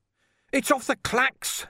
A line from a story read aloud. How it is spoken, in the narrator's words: he yelled